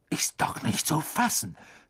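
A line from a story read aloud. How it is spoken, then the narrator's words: Indignant hiss. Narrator (German): zischte Wood empört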